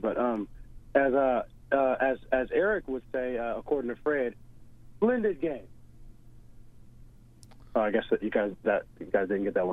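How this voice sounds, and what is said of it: Rough voice still recovering. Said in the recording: “forgive my voice. I was sick over the weekend, and my voice is still trying to recover.”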